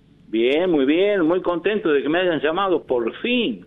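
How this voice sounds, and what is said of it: Jujuy regional Argentine accent. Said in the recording (Spanish): “vos estás en Jujuy con esa tonada hermosa.”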